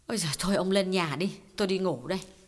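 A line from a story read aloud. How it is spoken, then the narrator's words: Sighing. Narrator (Vietnamese): Chị Kiều thở dài bảo Khái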